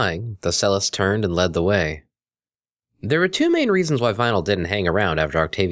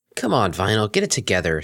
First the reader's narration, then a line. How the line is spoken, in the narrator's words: she muttered